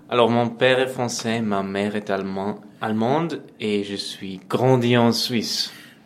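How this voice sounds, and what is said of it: Slight foreign accent in French. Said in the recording (French): “jeune violoncelliste franco-allemand-suisse ... avec un petit accent qui, ma foi, n'est pas désintéressant à écouter”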